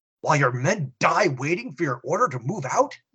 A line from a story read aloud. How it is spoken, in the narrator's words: the chaplain exclaims